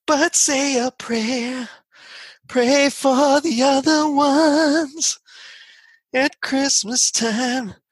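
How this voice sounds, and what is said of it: Imitates another person's singing voice. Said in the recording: “my best George Michael impression”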